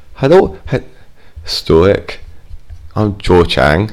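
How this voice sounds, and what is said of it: Attempted Scottish accent. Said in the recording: “I'm trying to do a Scottish accent.”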